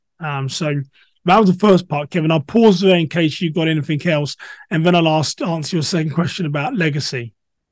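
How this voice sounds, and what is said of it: English accent. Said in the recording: “a man of color with an English accent”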